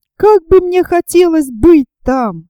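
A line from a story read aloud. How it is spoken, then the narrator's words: Inspired exclamation. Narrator (Russian): воскликнул Роберт, воодушевленный словами географа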